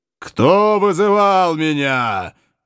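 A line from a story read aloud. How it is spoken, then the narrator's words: Thunderous genie roar. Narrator (Russian): громоподобным голосом взревел джин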